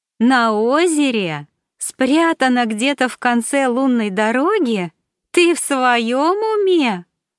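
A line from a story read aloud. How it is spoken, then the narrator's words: Laughing out loud. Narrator (Russian): расхохоталась Саша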